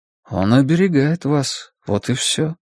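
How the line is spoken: Soft interjection. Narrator (Russian): мягко вставил Стью

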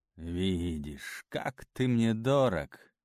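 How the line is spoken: Sigh. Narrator (Russian): вздохнул Лео

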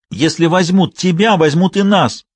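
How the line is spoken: Tearful shout. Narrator (Russian): прокричал он со слезами в голосе

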